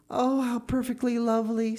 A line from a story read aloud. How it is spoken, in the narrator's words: sighed Diana